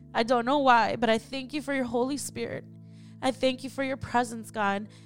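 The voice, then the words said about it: Emotional, choked-up voice. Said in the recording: “getting emotional.”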